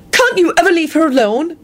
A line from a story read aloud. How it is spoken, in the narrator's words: She snapped